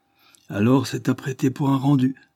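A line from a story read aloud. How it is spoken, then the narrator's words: Cheerful. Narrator (French): dit Wilfrid gaiement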